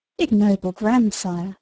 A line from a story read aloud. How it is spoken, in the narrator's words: exclaimed Sophia